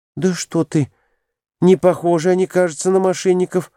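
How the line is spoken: Frightened speech. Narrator (Russian): испуганно проговорила Глафира Семеновна

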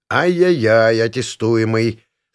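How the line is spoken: Stern reprimand. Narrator (Russian): строго поставил на вид

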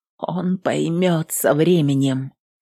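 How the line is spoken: Quiet, steadying breath. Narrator (Russian): тихо добавила, глубже дыша, стараясь успокоиться

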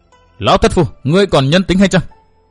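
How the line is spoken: Furious loud shout. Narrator (Vietnamese): Văn Thiên Hào phùng mang trợn mắt hét to

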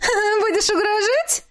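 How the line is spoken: Laughing. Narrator (Russian): засмеялась она

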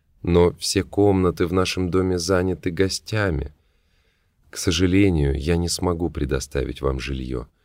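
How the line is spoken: Muffled, hollow voice. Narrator (Russian): начала госпожа Танг глухим голосом

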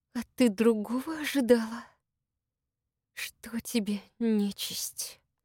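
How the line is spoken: Hissed through clenched teeth. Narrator (Russian): Процедила сквозь зубы Маша

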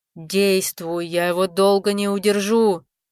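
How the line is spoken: Growled. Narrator (Russian): зарычал Рамбалак

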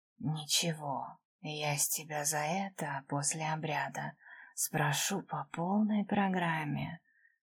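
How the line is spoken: Hoarse half-whisper. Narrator (Russian): пообещал хриплым полушепотом

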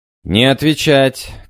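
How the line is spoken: Shouting. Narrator (Russian): кричал я

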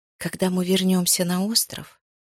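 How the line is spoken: Quiet speech. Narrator (Russian): Тихо проговорила она

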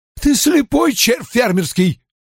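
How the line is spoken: Angry yelling. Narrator (Russian): заорал капитан

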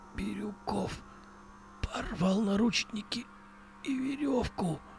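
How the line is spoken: Hoarse rasp. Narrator (Russian): прохрипел Кузнецов

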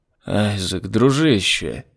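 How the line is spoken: Weary. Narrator (Russian): устало начал Лемель

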